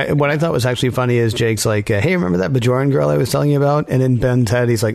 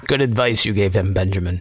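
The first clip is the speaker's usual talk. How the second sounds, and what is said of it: Imitates a TV character's voice. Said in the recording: “my Odo imitation”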